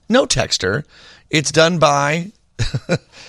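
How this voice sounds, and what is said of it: Usual voice. Nothing is said of it.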